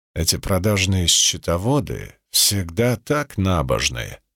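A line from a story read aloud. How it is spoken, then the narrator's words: Muttered. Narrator (Russian): пробормотал Цицерон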